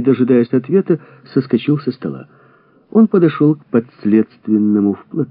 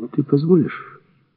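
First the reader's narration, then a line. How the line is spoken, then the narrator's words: Low voice. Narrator (Russian): сказал вполголоса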